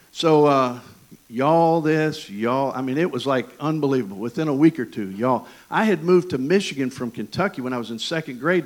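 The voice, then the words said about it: Thick Southern American accent. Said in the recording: “the reason I speak the way I do with this southern accent is because I played baseball in East Tennessee. That is the thickest.”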